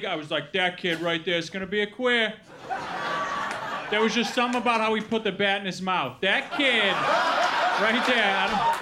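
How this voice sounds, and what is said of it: Put-on Brooklyn accent. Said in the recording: “I do that joke in a Brooklyn accent”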